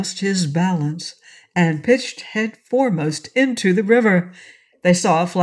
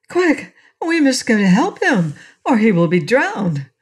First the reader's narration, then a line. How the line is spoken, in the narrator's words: Trot exclaimed